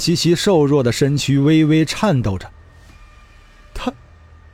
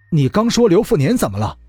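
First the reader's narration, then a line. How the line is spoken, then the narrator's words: Hurried question. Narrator (Chinese): 杨元亨急忙问道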